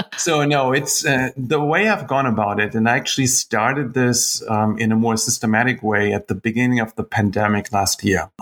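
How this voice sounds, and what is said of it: Deep voice, German accent. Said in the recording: “a guy with a deep, deep voice, German accent.”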